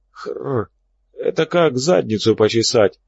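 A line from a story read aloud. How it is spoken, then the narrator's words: Hoarse voice. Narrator (Russian): раздался голос хрипатого Боба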